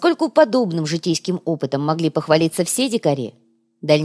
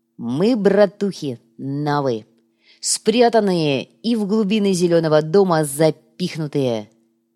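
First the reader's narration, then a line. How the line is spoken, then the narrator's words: Solemn. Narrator (Russian): торжественно подытожил коряга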